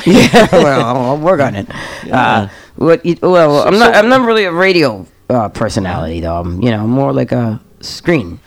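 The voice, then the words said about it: New Jersey accent. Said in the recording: “you sound like... I could tell the Jersey talk... I've been trying to get rid of that accent for years. The Jersey.”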